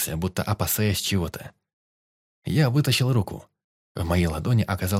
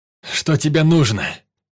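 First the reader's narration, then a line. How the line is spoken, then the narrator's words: Shouted. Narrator (Russian): крикнул я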